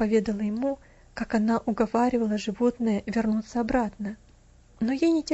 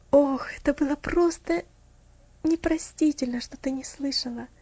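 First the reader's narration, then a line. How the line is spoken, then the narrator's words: Sighing. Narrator (Russian): вздохнул он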